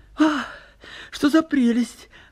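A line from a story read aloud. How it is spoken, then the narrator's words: Joyful exclamation. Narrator (Russian): радостно восклицает Нина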